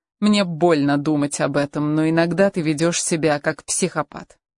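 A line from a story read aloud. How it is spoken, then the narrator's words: Irritated. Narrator (Russian): она раздраженно добавила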